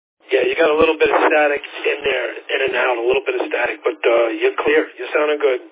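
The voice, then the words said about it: New York accent. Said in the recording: “was from New York with the New York accent”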